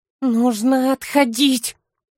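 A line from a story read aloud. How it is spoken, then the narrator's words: Sullen, through gritted teeth. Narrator (Russian): угрюмо процедил сквозь зубы Фолка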